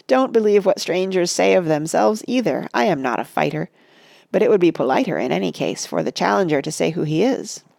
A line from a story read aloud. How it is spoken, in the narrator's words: Pippin laughed